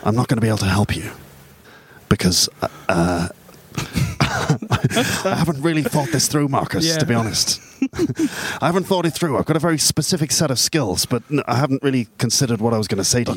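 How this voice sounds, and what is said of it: Liam Neeson impression. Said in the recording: “That wasn't bad. That's probably a better Liam Neeson accent than I can do.”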